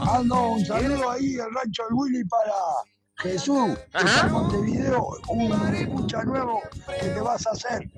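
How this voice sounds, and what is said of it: Hoarse, strained voice. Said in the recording (Spanish): “Estoy afónico.”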